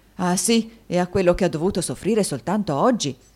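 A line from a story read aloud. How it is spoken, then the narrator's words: Many voices shouting. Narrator (Italian): gridarono molte voci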